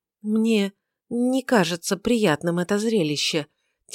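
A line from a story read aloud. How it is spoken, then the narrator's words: Said quietly. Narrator (Russian): тихонько сказала она ему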